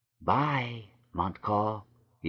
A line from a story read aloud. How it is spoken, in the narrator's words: whispered